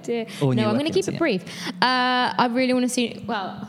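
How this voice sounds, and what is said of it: Slips into a Cockney accent. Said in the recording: “oh, that was a bit Cockney ... that Cockney accent ... I go quite Cockney sometimes”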